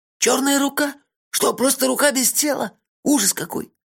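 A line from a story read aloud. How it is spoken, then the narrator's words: Choked whisper. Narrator (Russian): сдавленно прошептал Мелифара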